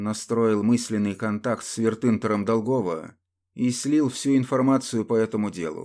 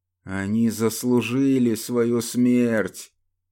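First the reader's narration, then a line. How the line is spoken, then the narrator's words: Drunken voice. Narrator (Russian): пьяным голосом произнес Северин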